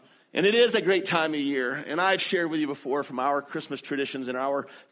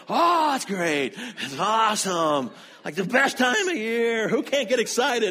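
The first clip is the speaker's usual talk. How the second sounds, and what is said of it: Imitates another person's excited voice. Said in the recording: “my Dustin impression ... there he's excited”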